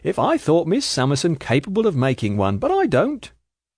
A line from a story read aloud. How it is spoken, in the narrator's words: Skimpole, with his airy laugh